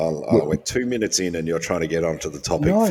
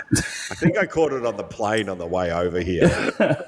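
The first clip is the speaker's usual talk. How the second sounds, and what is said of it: Put-on American accent. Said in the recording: “Say it with an American accent”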